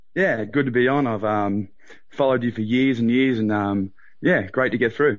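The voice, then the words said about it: Australian accent. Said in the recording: “Sounds Aussie to me. ... Very Aussie.”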